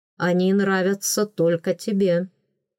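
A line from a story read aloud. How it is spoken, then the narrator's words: Snorting. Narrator (Russian): хмыкнул он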